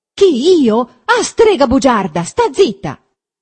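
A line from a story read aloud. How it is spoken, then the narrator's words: Shouted. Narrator (Italian): gridò Renzo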